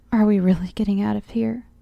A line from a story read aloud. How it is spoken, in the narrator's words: asked